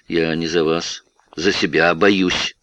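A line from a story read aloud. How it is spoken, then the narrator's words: Calm. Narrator (Russian): спокойно ответил Гуров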